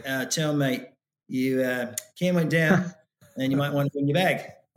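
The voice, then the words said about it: Put-on New Zealand accent. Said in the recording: “he's Kiwi ... I don't know how good my accent is”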